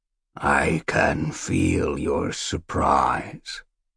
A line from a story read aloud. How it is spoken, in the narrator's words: the blind creature croaked